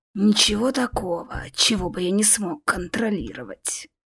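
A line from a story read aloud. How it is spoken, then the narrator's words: Hissing. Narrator (Russian): прошипел Кельмир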